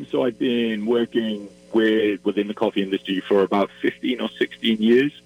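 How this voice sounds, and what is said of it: Welsh accent. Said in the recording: “I'm originally from Wales, and you might be able to tell from my accent”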